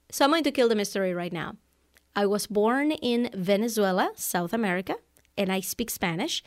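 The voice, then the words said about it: Hard-to-place non-native English accent. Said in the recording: “are you from Ukraine? ... People think that I'm from Eastern Europe because number one, they can't place my accent.”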